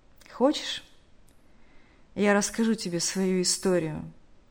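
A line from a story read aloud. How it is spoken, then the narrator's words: Heavy sigh. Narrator (Russian): Тяжело вздохнув, сказал тот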